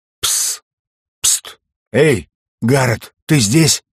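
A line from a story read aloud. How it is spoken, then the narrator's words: Hissing whisper. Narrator (Russian): Сквозь сон раздавалось шипение взбесившейся сковородки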